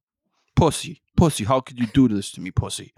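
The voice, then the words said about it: Imitates a Sopranos TV character. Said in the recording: “my Sopranos impression”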